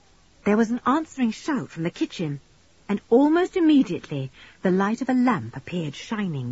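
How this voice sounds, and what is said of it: Usual voice. Nothing is said of it.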